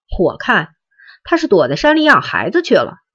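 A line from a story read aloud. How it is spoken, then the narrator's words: Cold sneer. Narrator (Chinese): 陈北江冷笑着说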